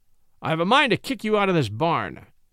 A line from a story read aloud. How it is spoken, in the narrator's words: cried Austin angrily